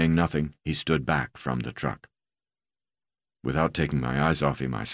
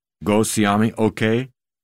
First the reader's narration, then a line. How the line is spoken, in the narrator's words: I asked